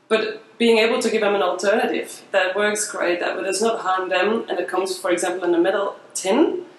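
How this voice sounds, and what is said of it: Belgian accent. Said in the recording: “your accent ... So you're Belgian.”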